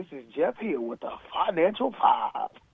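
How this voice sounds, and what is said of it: Announcer-style radio voice. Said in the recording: “I need to come in with a radio voice.”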